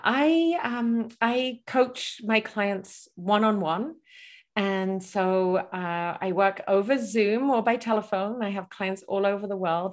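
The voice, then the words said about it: Mixed English accent. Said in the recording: “your accent ... I'm originally from England, and then my accent, I've traveled a lot ... people ask me, where are you from? ... it's a unique ... accent”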